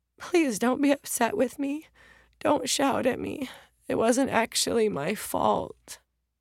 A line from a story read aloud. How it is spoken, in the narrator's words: In a voice shaken by sobs, the 7-year-old's mom said